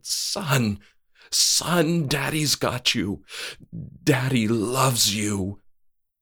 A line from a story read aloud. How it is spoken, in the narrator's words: He sobbed with happiness and said